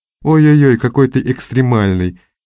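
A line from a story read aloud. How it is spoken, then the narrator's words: Snide. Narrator (Russian): ехидно произнесла Настя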